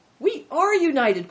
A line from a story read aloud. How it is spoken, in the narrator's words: cried Christian